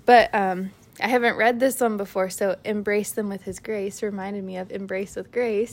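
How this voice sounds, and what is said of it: Breathless, out-of-breath speech. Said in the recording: “I'm like so out of breath. This baby just pushes sometimes on my lungs and I'm out of breath.”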